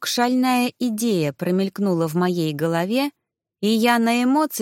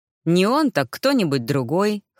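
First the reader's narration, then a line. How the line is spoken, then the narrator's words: Snorting grunt. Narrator (Russian): хмыкнул герцог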